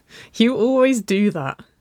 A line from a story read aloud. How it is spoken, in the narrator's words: Waverly laughed